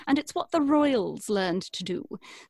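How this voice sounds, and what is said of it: Plummy British RP accent. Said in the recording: “What I'm doing right now is called RP, which is received pronunciation ... very plummy accent ... your sort of standard British”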